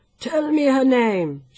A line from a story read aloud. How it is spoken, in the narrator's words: begged